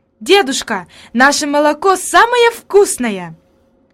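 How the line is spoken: Exclaimed. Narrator (Russian): она воскликнула

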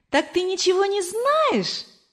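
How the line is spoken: Laughing speech. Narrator (Russian): засмеялся Кор

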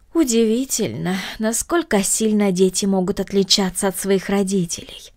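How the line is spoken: Regretful sigh. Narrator (Russian): вздохнула мисс Гридолин с сожалением в голосе

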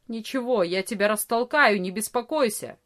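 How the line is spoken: Angry grumble. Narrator (Russian): сердито проворчал Ария

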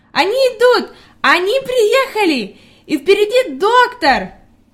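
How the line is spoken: Girl's joyful shout. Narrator (Russian): Девочка радостно кричала

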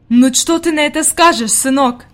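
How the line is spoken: Exclaiming. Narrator (Russian): воскликнула она

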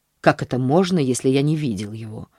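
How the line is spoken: Irritated man. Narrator (Russian): ответил мужчина раздраженно

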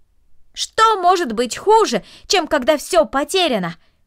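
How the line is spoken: Shouted after her. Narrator (Russian): крикнул ей вслед Дино

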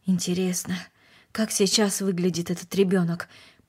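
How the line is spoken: Mutter. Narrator (Russian): пробормотал он

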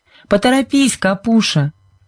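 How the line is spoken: Shouted. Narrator (Russian): крикнула Сьюзен

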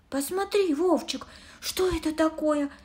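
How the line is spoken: Exclaiming. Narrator (Russian): воскликнула она

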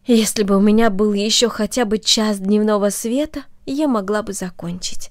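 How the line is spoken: Sighing. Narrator (Russian): вздохнула она

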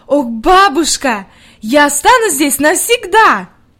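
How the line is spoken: Delighted exclamation. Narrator (Russian): с восторгом воскликнула

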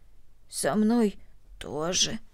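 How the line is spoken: Hoarse reply. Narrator (Russian): хрипло ответила Корнели

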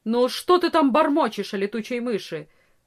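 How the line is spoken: Stern peasant woman asking. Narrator (Russian): строго спросила крестьянка

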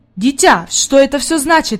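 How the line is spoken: Man's exclamation. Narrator (Russian): воскликнул господин Сесмон

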